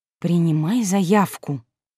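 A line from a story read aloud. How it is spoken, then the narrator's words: Quiet, firm command. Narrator (Russian): негромко и твердо велела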